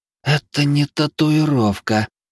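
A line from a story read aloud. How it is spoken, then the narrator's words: Amazed exhale. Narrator (Russian): она изумленно выдохнула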